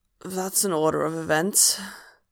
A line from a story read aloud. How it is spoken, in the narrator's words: Hob croaks